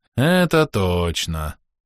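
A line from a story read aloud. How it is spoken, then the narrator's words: Sad confirmation. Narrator (Russian): грустно подтвердил второй знакомый голос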